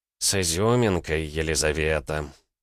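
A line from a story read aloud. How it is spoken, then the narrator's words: Displeased sigh. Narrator (Russian): вздохнул док, всем своим видом демонстрируя недовольство от пренебрежения его указаниями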